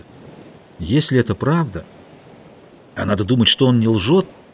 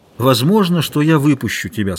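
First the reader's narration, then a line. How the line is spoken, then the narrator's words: Plain. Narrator (Russian): сказал Зурита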